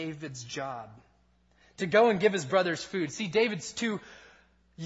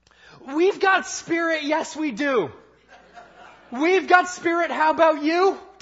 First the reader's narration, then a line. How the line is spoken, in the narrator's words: yell back